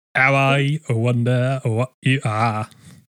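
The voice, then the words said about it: Cockney accent slipping into French. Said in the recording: “I tried to start with the sort of Cockney gangster and it started to slip into French rather rapidly and I sort of tried to course correct ... Weird patois”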